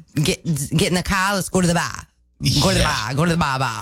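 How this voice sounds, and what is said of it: Attempted Maine accent, nearly convincing. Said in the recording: “I love your attempts at Maine accents. ... You're almost there. You're almost there. You need to spend a little more time with some like down east Mainers”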